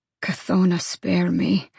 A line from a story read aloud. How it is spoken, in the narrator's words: Cormac muttered